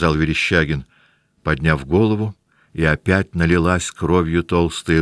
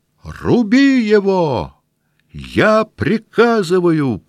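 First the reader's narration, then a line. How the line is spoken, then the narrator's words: Shouted. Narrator (Russian): прокричал Ростопчин, вдруг побледнев так же, как и Верещагин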